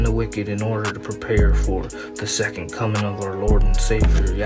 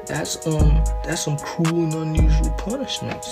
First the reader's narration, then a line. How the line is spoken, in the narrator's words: he pleaded